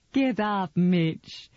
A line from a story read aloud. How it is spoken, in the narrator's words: she said with laughter in her voice